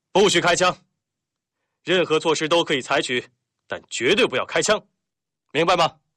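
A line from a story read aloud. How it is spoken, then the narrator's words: Loud reply. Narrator (Chinese): 廖飞 他大声回答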